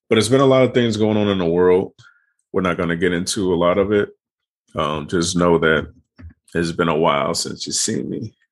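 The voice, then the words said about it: Choked-up, throaty voice. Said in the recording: “I just let my uh my uh, Palo Santo. So I'm a little choked up.”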